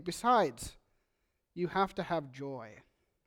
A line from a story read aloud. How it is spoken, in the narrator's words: pointing out gently